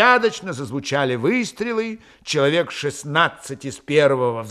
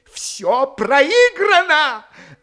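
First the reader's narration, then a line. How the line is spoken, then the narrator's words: Desperate exclamation. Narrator (Russian): отчаянно воскликнул Копарин, обессиленно рухнув на скамью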